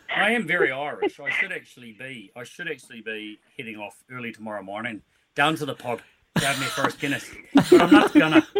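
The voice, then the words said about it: Put-on Irish accent. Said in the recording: “accents. You're on point ... I can do the Irish one.”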